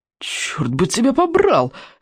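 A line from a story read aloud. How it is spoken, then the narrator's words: Pained exclamation. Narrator (Russian): с болью воскликнул незнакомец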